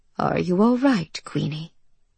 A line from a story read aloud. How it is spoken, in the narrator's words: he asked her softly